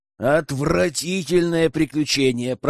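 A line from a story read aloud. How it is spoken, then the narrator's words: Battered, angry growl. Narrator (Russian): прорычал весь избитый Герман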